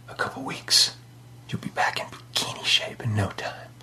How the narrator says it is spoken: He whispered in her ear

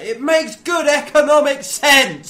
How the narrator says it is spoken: he yells out

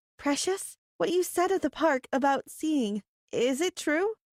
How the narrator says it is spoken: Lexi asked hesitantly

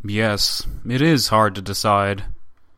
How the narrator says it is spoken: the up-to-now silent Tatischev, who added gravely

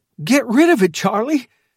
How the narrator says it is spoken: cried

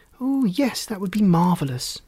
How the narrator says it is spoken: an excited Rosie exclaimed

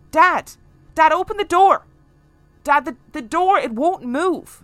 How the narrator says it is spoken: shouting

